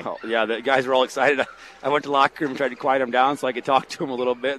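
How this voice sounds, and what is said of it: Hoarse, nearly lost voice. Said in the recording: “my voice is about gone. I said, I can't scream over top of you all right now.”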